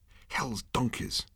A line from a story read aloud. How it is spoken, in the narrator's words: muttered Zaphod